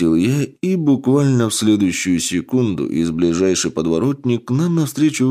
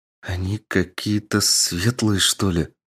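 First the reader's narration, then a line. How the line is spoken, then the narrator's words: Uncertain. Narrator (Russian): неуверенно ответила воительница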